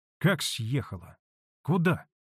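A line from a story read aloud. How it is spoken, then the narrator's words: Quick surprised question. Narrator (Russian): быстро спросила удивленная Манефа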